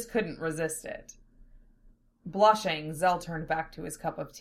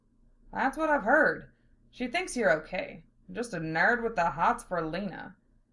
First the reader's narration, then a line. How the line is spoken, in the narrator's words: Val said